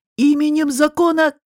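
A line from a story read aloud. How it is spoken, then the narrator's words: Shouted. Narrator (Russian): крикнул Пашка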